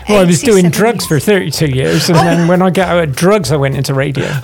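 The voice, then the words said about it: Bristolian English accent. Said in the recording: “your wonderful Bristolian accent”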